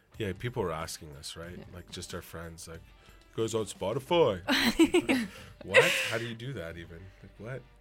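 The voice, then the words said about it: Big deep voice, eastern accent. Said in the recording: “Are all your friends Andre the Giant? ... What a voice. ... I'm originally from out east, and that's just kind of the accent”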